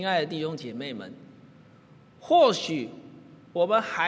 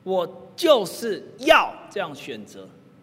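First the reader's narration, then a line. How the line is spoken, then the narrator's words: Loud, willful. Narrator (Chinese): 大声的任性说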